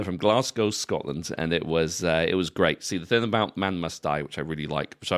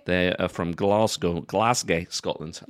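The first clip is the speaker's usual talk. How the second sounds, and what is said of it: Put-on Scottish accent. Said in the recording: “They're Scottish, right? ... I, am allowed to do that accent”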